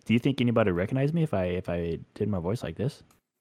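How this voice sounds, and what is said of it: High-pitched put-on voice. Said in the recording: “You still sound like you. You just sound like high-pitched you.”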